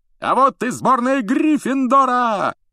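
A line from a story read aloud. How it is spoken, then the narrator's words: Commentator's yell. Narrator (Russian): завопил Ли Джордан, который, как обычно, выступал в роли комментатора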